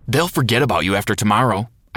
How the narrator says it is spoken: I snapped at Evan

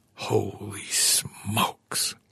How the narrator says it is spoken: Arnaud whispered

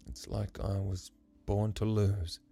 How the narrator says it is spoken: He grit his teeth and said sadly

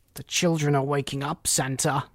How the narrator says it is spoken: he cried

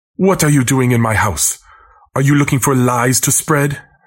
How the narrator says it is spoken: yells

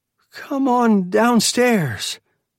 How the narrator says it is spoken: Janet called in a wavering voice

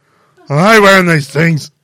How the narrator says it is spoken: he grumbles

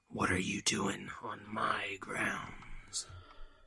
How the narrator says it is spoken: said with a hoarse, growling voice

